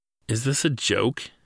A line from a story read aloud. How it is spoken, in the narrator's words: said, and laughed nervously